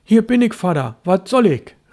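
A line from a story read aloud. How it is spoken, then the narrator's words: Calling out. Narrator (German): rief Störtebeker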